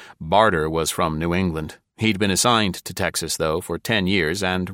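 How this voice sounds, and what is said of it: Usual voice. Nothing is said of it.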